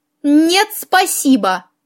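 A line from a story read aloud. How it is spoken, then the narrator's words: Mocking snort. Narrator (Russian): насмешливо фыркнула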